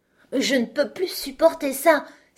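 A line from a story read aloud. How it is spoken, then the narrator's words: Exclaiming. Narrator (French): s'écria-t-elle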